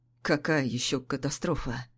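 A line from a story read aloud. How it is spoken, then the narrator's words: Hoarse, unfamiliar deep voice. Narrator (Russian): Голос прозвучал хрипло, чужим басом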